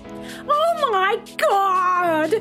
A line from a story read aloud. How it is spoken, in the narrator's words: Saber yelled